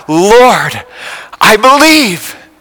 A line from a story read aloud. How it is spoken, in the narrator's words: with his heart flowing with joy, he cried out